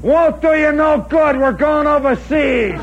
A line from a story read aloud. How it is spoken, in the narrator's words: Schultz hollers